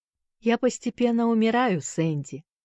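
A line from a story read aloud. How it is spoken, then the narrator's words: Calm. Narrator (Russian): спокойно отвечал тот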